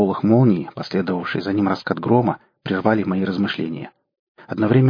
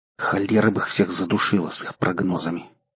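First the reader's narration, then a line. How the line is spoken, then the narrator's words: Quiet cursing. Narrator (Russian): тихо выругался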